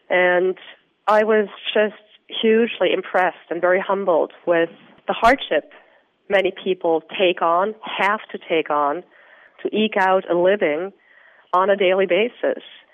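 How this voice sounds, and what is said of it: Austrian accent in English. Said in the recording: “you can hear from my accent, I'm neither American nor Australian. I'm from Austria originally.”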